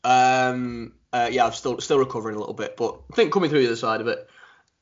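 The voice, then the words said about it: Deeper voice from a cold. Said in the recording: “You can probably still tell in my voice. I'm a little bit deeper at the moment... Still got a bit of bass in my voice”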